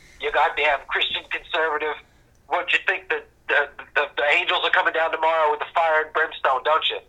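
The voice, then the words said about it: Put-on mocking accent. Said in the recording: “I love that accent ... that accent's amazing”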